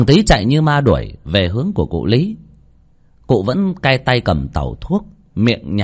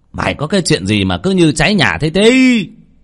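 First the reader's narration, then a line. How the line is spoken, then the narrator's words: Old man shouting. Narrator (Vietnamese): Cụ Lý ngồi nghe tiếng thằng Tí gấp gáp thì quát lên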